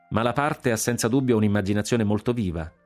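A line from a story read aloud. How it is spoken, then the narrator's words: Laughing general. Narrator (Italian): disse il generale Guillaume ridendo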